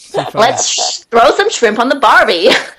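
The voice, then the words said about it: American attempting an Australian accent. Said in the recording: “when the Americans try and do an Aussie accent, it's really, really bad... I'll try and do an Aussie accent as an American... I might end up sounding like Steve Irwin”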